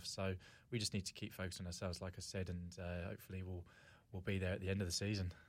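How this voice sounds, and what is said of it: English accent. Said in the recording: “I can hear the accent, obviously, from England”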